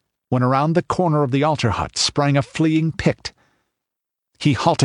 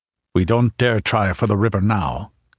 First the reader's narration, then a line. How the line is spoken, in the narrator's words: grunted Conan